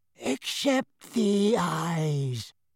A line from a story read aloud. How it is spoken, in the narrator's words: said a wheezy-voiced wizard